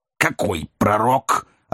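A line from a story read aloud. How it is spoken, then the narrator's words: Inquiring. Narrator (Russian): осведомился мистер Уэллер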